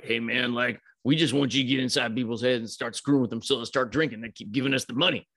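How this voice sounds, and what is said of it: Cringey put-on character voice. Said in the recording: “my voices are so cringe ... doing the voices”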